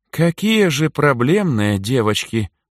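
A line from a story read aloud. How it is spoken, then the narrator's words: Tired. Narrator (Russian): устало произнесла Натали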